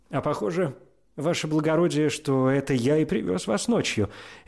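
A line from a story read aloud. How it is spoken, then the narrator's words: Cheerful. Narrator (Russian): весело сказал извозчик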